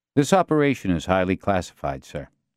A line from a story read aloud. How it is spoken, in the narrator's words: Castillo said